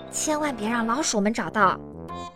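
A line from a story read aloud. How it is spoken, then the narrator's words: Whisper. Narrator (Chinese): 他悄声说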